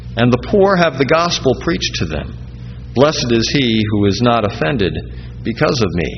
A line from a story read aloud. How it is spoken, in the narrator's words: he says